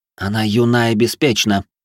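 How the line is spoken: Irritated answer. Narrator (Russian): раздраженно ответила говорящая с травами

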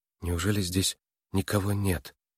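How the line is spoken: Quiet question. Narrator (Russian): тихо спросила Нойс

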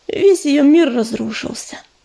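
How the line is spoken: Sighing. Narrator (Russian): вздохнула целительница

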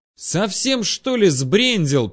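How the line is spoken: Yelling over the wind. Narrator (Russian): перекрывая свист ветра, заорал я

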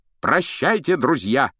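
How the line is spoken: Shouted farewell. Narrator (Russian): крикнул рыцарь

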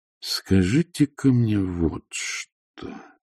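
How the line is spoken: Slow. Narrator (Russian): медленно произнес Патриций

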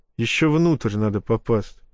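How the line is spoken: Wry snort. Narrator (Russian): хмыкнул я

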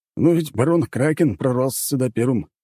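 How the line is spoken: Scoffing. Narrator (Russian): хмыкнул какой-то виконт

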